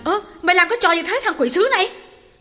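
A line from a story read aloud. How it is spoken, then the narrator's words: Shout. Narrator (Vietnamese): Hậu hét lên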